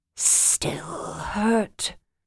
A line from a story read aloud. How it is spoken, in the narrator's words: his rough voice whispered in her mind